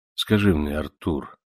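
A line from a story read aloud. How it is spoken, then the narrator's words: Serious question. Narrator (Russian): серьезным тоном спросил Монтанелли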